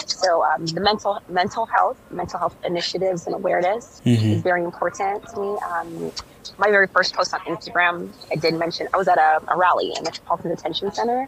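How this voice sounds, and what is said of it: Valley Girl accent. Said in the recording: “Don't let the Valley Girl accent fool you. ... the accent's perfect. I would never guess.”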